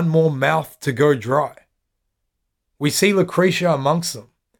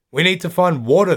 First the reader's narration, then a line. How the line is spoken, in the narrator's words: says